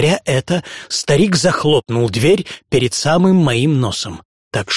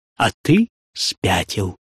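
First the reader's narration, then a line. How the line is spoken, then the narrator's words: Calm reply. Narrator (Russian): ответил он спокойно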